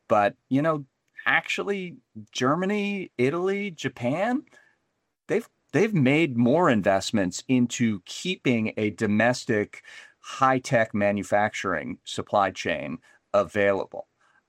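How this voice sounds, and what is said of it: American accent. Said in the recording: “As you can hear from my accent, I'm American”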